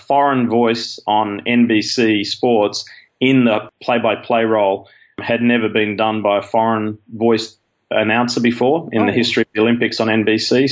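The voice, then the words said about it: Australian accent. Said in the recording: “your accent from Australia, obviously, which I think all of us in the U.S. love Australian accents. ... They're just, they always sound so friendly.”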